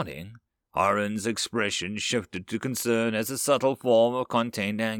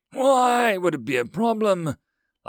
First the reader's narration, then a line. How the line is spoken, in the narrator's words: Lazi repeated before hissing, his species' version of a sigh